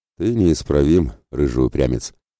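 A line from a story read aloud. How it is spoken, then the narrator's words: Heavy sigh. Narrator (Russian): тяжело вздохнул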